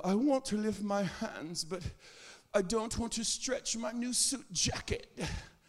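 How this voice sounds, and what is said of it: Mock British accent. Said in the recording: “Speaking with a British accent, knowing you're from Tallahassee.”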